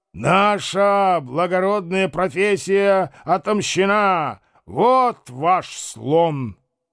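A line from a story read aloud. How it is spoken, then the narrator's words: Shout while falling. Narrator (Russian): он, падая, закричал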